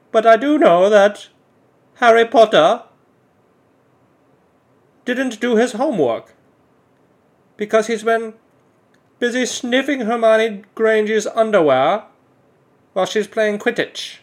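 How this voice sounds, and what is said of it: Exaggerated put-on British accent. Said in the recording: “doing this British voice. I don't know if it's actually a British voice or if it's just some dumb voice that I think is what British people sound like.”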